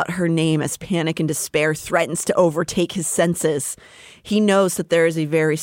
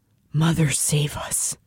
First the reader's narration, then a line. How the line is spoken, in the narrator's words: Asriel whispered